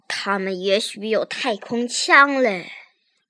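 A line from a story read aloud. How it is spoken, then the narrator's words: Mumbling. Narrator (Chinese): 警长也嘟嘟囔囔地说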